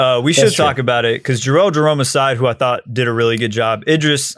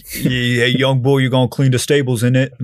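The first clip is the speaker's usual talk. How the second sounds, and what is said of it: American accent slipping into London slang. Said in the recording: “the accent was failing him, bro. He was a little Mandem was sneaking in every now and then”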